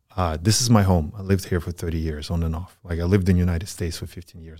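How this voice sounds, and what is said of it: Speaks with a foreign accent. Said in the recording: “I have an accent ... He has an accent.”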